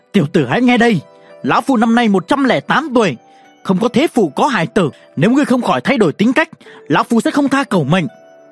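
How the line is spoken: Roaring. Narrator (Vietnamese): Đối phương ngẩn người, lập tức gầm lên

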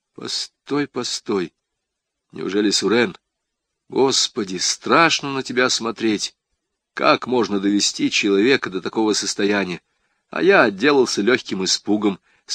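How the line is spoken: Plain. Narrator (Russian): сказал Хачатуров

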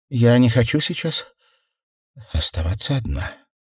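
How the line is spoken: Slow exhale, strained speech. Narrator (Russian): Она медленно выдохнула и с трудом произнесла

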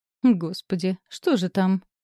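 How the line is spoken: Mocking question. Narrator (Russian): насмешливо поинтересовалась Ники

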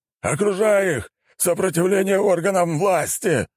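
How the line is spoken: Yelled. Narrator (Russian): заорал он

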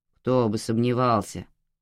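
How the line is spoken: Grumbling. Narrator (Russian): проворчал судья

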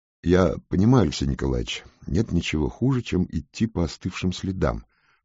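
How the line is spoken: Soft, gentle. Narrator (Russian): мягко сказал Трусевич

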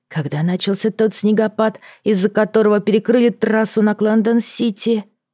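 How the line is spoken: Quiet whisper. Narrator (Russian): шептала тихо

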